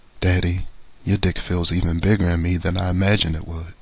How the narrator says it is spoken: Karen moans

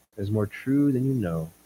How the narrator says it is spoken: said Gabriel softly from behind him

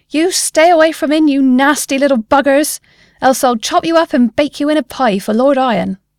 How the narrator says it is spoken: she yelled

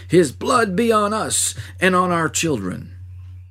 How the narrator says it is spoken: The mocking soldiers, the priests and rulers, and the maddened throng who cried

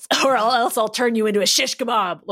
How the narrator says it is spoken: Logan growled

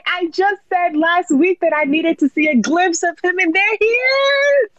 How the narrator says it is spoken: I screamed

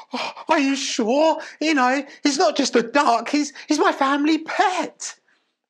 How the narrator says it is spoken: The distressed woman wailed

